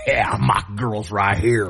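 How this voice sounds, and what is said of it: Weak Louisiana accent, raspy old-smoker voice. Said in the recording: “Is that your Malky Louisiana accent? ... You gotta work on that one, my guy. ... I gotta hit that twang. ... he made Malky sound like a 90-year-old chain smoking man.”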